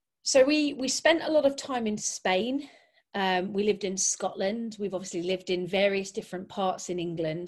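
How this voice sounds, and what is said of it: Northern English accent, faded Scottish. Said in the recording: “I have zero Scottish accent ... you've ended up sounding a bit like you're north of England somewhere ... your accent's coming, you're converging down towards the southeast ... I would guess it's somewhere like, I suppose, Yorkshire, Lancashire”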